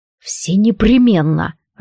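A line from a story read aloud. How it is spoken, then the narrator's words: Furious growl. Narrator (Russian): рыкнул Алистар, яростно сверкая глазами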